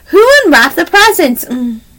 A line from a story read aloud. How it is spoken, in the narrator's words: cried Lewis